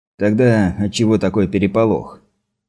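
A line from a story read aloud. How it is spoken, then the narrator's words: Less confident mutter. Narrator (Russian): Майор уже менее уверенно пробормотал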